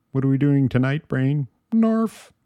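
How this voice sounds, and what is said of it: Weak attempt at Pinky's voice. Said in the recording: “I can't do a good pinky voice.”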